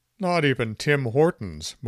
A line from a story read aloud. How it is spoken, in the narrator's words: moaned the town council